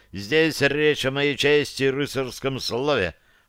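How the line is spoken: Growl. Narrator (Russian): рыкнул Клюкс

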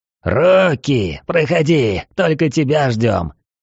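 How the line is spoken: Growled. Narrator (Russian): прорычал он

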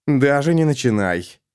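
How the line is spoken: Growled. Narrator (Russian): Эрвин рыкнул на нее

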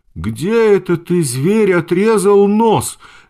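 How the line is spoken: Angry shout. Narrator (Russian): закричала она с гневом

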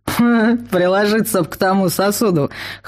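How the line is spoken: Snorting. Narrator (Russian): хмыкнул Вал

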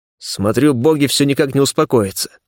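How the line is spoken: Snorting scoff. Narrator (Russian): хмыкнул я

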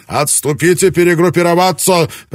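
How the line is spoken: Shouted command. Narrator (Russian): прокричал Ябу

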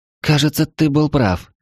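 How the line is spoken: Breathed out. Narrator (Russian): выдохнула Лу

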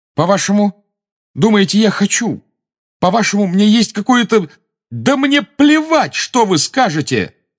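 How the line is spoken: Shouted. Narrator (Russian): закричал Гарри

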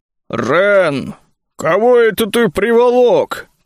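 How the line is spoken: Booming voice. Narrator (Russian): прогудел Бруни

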